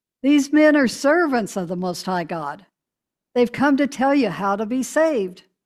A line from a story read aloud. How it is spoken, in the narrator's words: this girl shouting